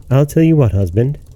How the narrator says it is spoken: answered the woman

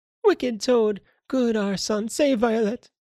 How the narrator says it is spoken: still she exclaimed

